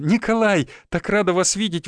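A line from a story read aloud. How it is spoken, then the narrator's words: Exclaiming. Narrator (Russian): воскликнула она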